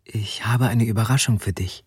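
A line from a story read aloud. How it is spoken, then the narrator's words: Whisper. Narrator (German): flüsterte sie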